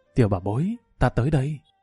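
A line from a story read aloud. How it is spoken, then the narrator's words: Gentle, tender. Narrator (Vietnamese): Lâm Vân Vinh ôn nhu nói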